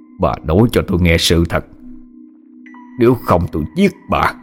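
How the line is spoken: Menacing growl through clenched teeth. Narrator (Vietnamese): Ông nghiến răng lên gằn giọng

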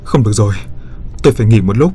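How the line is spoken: Panting. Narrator (Vietnamese): thở hổn hển nói

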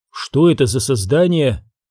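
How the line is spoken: Even, steady question. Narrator (Russian): ровным голосом спросила она

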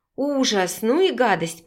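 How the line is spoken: Hoarse wheeze. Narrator (Russian): прохрипела Виктория

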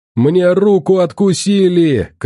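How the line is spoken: Shouting. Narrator (Russian): кричал Толян

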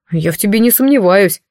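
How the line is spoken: Wry grunt. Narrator (Russian): хмыкнул Морт

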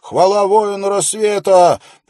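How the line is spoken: Yell. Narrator (Russian): снова завопил

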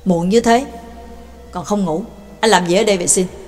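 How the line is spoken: Cold question. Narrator (Vietnamese): Bà Tàng lạnh lùng hỏi

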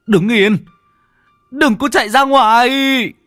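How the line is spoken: Yelling. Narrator (Vietnamese): Ông gào lên

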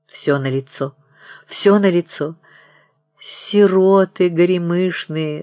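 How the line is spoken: Women sobbing. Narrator (Russian): зарыдали тетки

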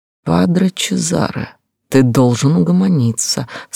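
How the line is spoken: Sugary, smirking voice. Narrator (Russian): сказал елейным голоском, ухмыляясь

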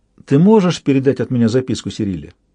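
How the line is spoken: Plain question. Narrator (Russian): спросила Роника

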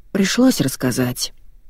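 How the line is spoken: Glum explanation. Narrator (Russian): уныло пояснил Володя

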